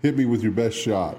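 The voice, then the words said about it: Imitates another person's voice. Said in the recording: “my Pat Benatar imitation.”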